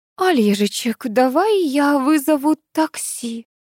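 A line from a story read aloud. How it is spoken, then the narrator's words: Timid suggestion. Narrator (Russian): робко предложила Элла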